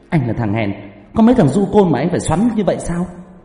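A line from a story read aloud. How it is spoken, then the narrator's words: Loud shout. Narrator (Vietnamese): cô gái lại to mồm quát lớn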